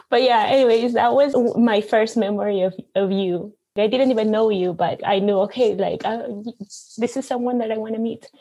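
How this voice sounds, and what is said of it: Non-native accented English. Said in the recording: “talking with my accent”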